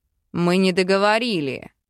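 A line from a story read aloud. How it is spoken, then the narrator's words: Demon's growl. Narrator (Russian): рыкнул демон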